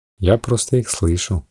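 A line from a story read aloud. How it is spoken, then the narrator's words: Low, smiling voice. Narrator (Russian): сказала вполголоса Раэль, улыбаясь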